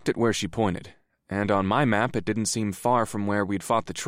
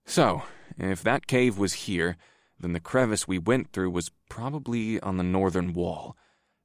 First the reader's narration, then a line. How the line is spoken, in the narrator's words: I muttered to myself